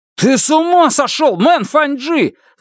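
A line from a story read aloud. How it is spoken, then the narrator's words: Yell. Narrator (Russian): заорал он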